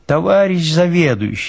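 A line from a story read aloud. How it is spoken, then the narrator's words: Pleading. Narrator (Russian): взмолился Институтов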